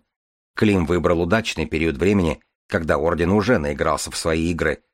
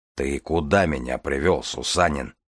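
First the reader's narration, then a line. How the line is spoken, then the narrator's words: Grumbling. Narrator (Russian): проворчал Железовский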